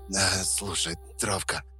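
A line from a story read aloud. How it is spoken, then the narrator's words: Hoarse rasp. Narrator (Russian): прохрипел я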